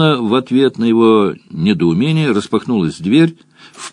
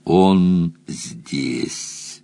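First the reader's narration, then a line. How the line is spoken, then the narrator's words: Growl. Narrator (Russian): прорычала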